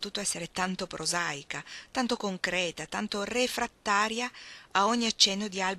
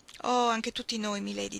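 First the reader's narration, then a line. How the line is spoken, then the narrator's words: Widow's heavy sigh. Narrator (Italian): disse la vedova con un gran sospiro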